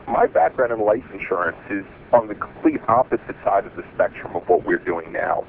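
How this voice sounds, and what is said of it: Brooklyn and South Jersey accent, congested. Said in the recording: “my allergies and my Brooklyn, New York and / South Jersey accent”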